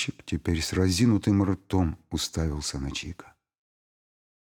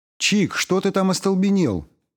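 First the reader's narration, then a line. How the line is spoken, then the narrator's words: Shouted from outside. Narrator (Russian): крикнула тетя Лена уже с улицы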